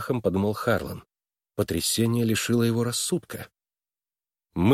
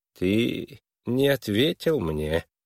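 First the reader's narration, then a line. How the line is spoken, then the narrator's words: Soft insinuating tone. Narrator (Russian): вкрадчиво продолжал Твисл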